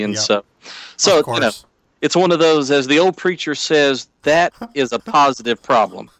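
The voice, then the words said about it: Southern country accent. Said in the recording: “I love your accent because my wife is from Alabama... I've got a weird accent because I'm definitely not Cajun or French, but apparently I'm country enough for it to be noticeable”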